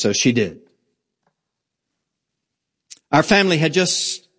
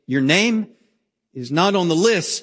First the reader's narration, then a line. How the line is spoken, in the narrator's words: he said